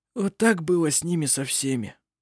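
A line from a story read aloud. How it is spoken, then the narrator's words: Mutter. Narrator (Russian): пробормотал жено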